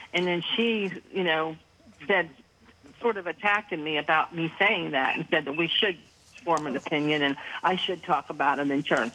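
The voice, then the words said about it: Slight Pittsburgh accent. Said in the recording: “are you from, like, the Pittsburgh area by chance? ... I could kind of pick up on that accent a little bit. I was waiting for you to say Yin's guys.”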